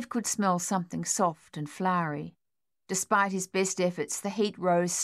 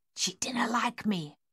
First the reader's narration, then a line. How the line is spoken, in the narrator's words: Miss Waits whispered